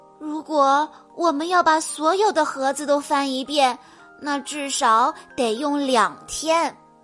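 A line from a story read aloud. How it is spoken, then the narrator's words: Sighing. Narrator (Chinese): 小西叹了口气说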